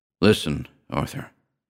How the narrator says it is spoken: the elder Duryea went on quickly, his voice low with the pain it gave him

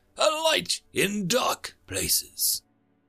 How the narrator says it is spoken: Hayes hesitated and called out

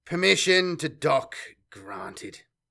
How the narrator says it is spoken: sighed Semper

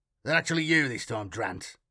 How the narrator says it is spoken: Matthias growled

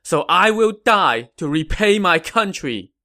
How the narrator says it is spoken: Zhuge Zhan shouted

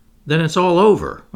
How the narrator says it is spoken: exclaimed

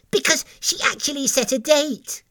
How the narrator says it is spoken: chirped up the cherry pitter, which was very excited

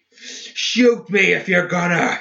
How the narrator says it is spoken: he bellowed

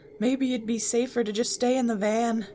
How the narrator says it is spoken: Shaggy said nervously

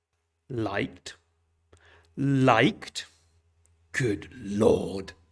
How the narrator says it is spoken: growled

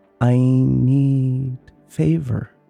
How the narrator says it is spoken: it cooed

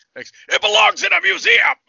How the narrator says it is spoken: shouts

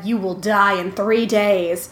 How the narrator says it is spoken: the little girl raised up her arms and said

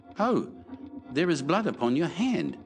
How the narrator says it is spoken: she cried

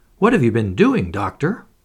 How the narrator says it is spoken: cried Mrs

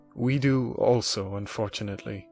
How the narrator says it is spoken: replied my father

